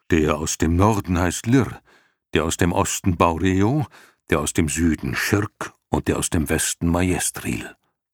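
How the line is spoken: Plain. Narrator (German): antwortete Fuchur

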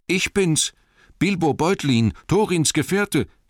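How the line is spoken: Calling out. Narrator (German): rief er

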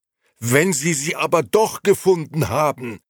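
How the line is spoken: Shout. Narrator (German): schrie Beppo

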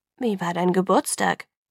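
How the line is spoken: Murmuring. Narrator (German): murmelte

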